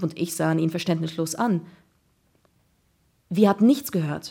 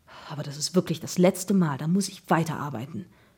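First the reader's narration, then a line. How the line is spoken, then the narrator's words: Murmured. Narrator (German): murmelte er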